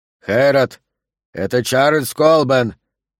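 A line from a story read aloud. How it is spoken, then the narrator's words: Rough roaring voice. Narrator (Russian): проревел знакомый грубый голос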